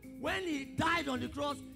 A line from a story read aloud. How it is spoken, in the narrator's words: he shouted